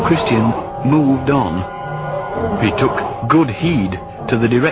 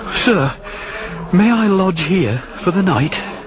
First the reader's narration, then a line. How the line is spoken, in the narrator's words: Then, somewhat breathlessly, he asked the porter